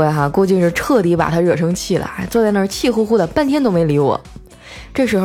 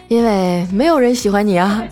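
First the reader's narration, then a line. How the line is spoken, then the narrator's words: Smiling. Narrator (Chinese): 我笑了笑说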